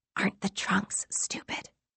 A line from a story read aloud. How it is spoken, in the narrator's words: She whispered